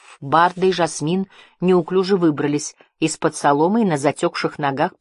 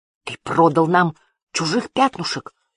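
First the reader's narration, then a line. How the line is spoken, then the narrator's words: Spiteful hiss. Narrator (Russian): злобно прошипел Барда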